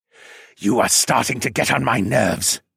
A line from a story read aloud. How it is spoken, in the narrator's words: the dragon hissed